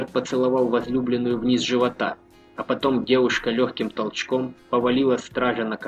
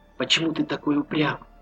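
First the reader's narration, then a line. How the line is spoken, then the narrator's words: Passionate whisper. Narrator (Russian): прошептала Маша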